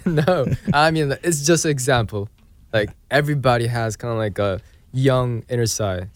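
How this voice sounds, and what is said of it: British-sounding English accent. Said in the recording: “your accent is impeccable... My English accent is like... British... it's definitely less. You're from Australia, aren't you? Or New Zealand?”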